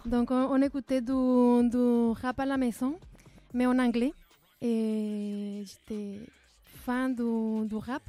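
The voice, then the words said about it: Slight Guatemalan accent in French. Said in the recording (French): “j'entends un petit accent ... je viens de Guatemala”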